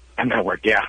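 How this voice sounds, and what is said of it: Whispering. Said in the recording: “That's usually why people whisper.”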